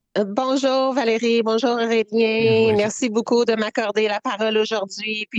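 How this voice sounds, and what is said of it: Canadian French accent. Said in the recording (French): “On va avoir un bel accent”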